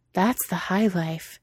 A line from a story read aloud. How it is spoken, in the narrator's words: Cheeto had breathed out